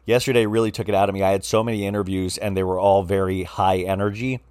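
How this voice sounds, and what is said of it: Slightly raspy voice. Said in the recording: “my voice is a little raspy. ... you would hear a little rasp in my voice, which I think probably sounds very sexy”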